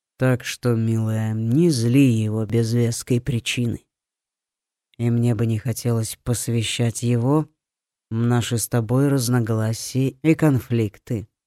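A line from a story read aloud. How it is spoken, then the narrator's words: Soft but more serious. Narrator (Russian): добавил он хоть и мягким, но чуть более серьезным тоном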